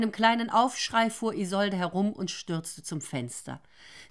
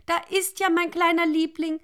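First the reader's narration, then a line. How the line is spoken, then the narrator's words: Called out. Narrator (German): rief Isolde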